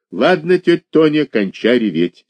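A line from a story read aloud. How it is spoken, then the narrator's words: Angry. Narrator (Russian): сердито сказал Олег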